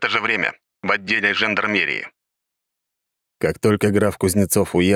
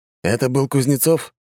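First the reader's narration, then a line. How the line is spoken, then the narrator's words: Calm question. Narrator (Russian): спокойным голосом спросил второй агент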